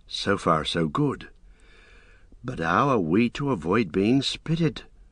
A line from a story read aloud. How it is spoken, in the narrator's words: Merry whispered softly